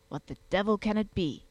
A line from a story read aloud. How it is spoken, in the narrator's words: muttered the Wondersmith